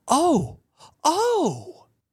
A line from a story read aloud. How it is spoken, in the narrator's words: she jumped up and cried